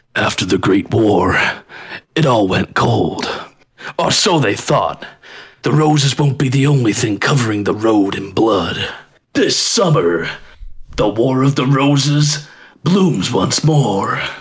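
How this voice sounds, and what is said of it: Epic movie-trailer narrator voice. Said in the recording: “try my epic cinema voice,”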